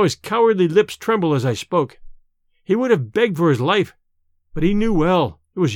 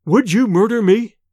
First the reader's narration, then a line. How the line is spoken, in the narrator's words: he stammered